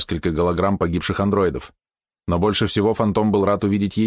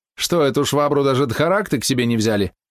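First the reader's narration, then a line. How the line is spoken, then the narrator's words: Snide laugh. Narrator (Russian): ехидно засмеялась сеньорита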